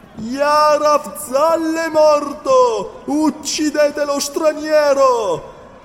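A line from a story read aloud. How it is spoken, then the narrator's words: Shout. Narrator (Italian): grido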